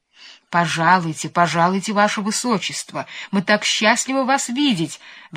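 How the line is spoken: Exclaimed. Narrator (Russian): воскликнул сеньор Петрушка

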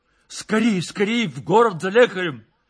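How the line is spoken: Shouting. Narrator (Russian): кричал Владимир

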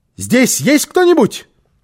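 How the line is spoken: Shout. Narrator (Russian): крикнула

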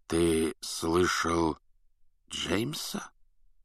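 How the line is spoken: Strange-voiced question. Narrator (Russian): странным голосом спросил Люпин

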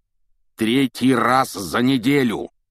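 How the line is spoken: Roared. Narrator (Russian): проревел он

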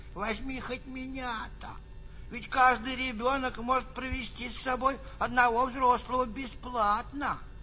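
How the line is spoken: Grandmother pleading. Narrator (Russian): бабушка взмолилась

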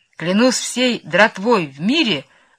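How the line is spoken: Exclaiming. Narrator (Russian): воскликнул он

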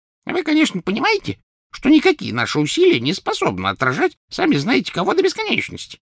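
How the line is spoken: Squeaky voice. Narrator (Russian): пропищал Флитвик

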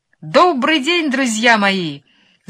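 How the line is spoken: Ringing trumpet-like shout. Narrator (Russian): закричал он звонким голосом, который прозвучал в подземелье, как труба

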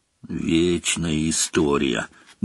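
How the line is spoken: Grumbling. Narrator (Russian): буркнул Рон

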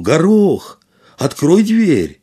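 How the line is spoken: Shout. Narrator (Russian): он крикнул

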